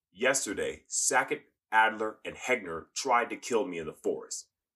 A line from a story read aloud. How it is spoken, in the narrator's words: in a loud voice, she said